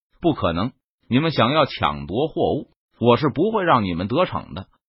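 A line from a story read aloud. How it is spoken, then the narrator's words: Cold voice. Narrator (Chinese): 为首的蒙面人冷声说道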